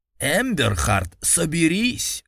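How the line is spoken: Barking. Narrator (Russian): рявкнул

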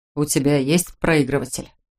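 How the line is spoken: Somewhat muffled voice. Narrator (Russian): спросил он, и голос его звучал несколько глухо

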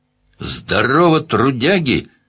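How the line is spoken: Cheerful shout. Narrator (Russian): весело крикнул один

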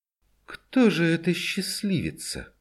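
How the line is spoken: Slow, through clenched teeth. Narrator (Russian): Медленно и почти сквозь зубы произнесла мать

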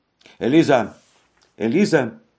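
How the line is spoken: Loud call. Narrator (Russian): громко позвала Софи

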